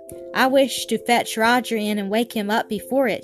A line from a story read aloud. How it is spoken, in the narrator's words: she said